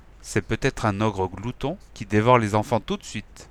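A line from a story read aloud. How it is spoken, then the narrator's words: Whispered in ear. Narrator (French): elle m'a chuchoté à l'oreille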